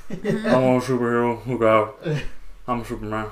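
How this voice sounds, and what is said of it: Elvis-like voice imitating another person. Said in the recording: “It sounds like Elvis doing a Shaq impression.”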